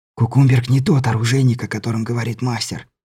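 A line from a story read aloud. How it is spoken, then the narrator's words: Whisper. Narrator (Russian): шепнул Беляев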